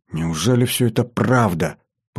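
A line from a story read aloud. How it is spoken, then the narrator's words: Muttered. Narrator (Russian): пробормотала она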